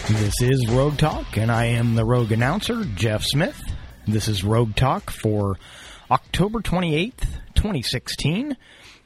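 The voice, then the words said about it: Voice sounds a little sick. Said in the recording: “If you can't tell from my voice, I'm a little under the weather”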